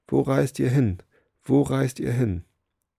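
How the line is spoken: Calling out. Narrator (German): rief

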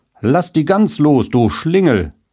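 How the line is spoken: Shouted call. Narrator (German): wer da rief

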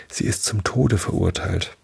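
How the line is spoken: Fearful whisper. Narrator (German): ängstlich, dicht an Alice' Ohr, wisperte

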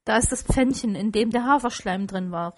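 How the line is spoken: Excited call. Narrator (German): rief Scrooge

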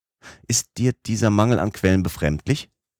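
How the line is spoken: Plain. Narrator (German): sagte er

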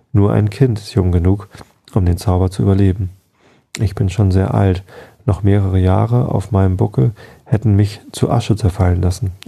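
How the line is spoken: Calm explanation. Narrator (German): erklärte mit ruhiger Stimme

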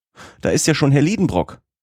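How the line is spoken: Dismayed call. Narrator (German): rief die gute Martha in Bestürzung

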